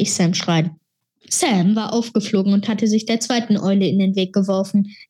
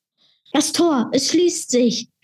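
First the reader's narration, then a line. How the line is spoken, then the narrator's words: Shouted. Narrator (German): schrie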